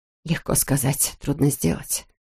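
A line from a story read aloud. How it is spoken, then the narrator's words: Muttering. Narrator (Russian): пробормотала Тоби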